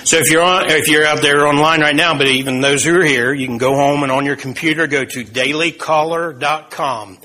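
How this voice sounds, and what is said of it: Speaker's own noticeable accent. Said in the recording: “I spell it because of my accent.”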